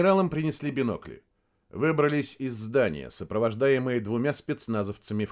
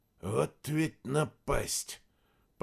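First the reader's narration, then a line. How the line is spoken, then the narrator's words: Hissed through gritted teeth. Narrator (Russian): процедил сквозь зубы Павел Васильевич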